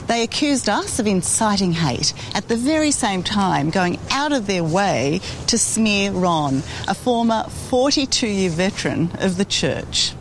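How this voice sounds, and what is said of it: Australian accent. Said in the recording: “the Australian accent. I love her accent.”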